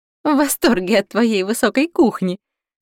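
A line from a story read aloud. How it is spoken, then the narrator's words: Laughing loudly. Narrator (Russian): хохотала Марта, которая больше всех радовалась оживлению в замке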